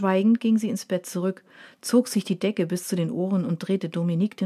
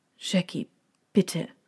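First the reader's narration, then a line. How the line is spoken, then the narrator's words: Helpless murmur. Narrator (German): murmelte er hilflos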